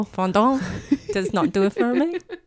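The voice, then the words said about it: Odd, unidentifiable put-on accent. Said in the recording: “I don't know what accent I just attempted.”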